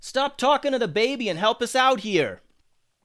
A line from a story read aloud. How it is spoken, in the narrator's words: yelled Alex